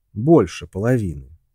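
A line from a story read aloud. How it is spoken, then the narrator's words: Calm clarification. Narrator (Russian): спокойно уточнил Джон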